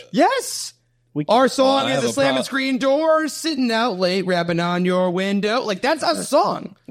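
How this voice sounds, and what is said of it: Unconvincing put-on country accent. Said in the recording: “That country accent, my guy, needs some work.”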